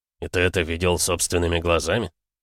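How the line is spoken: Gloomy inquiry. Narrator (Russian): мрачно осведомился Максуд

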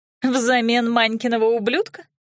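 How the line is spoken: Woman's loud laughter. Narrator (Russian): Женщина расхохоталась

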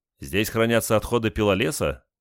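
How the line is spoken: Sarcastic question. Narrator (Russian): язвительно спросил один из разведчиков

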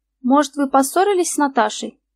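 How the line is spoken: Plain. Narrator (Russian): спросил следователь

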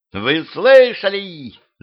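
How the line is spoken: Shrieking woman. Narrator (Russian): завизжала повелительница

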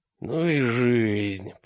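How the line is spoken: Hoarse rasp. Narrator (Russian): прохрипел

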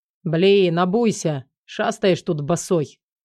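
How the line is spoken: Grumbling. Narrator (Russian): заворчал я на него

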